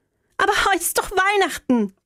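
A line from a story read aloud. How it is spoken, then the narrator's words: Calling after. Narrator (German): rief ich ihm nach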